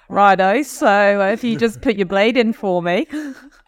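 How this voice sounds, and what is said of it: Imitated Australian accent. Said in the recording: “goes into an Australian ... that accent”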